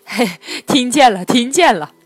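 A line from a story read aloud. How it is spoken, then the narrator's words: Beaming, ingratiating. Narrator (Chinese): 掌柜的满脸堆笑的说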